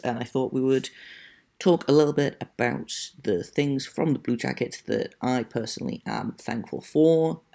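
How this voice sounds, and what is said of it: Non-North American accent. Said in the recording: “if you cannot tell by my accent. I am not American or Canadian”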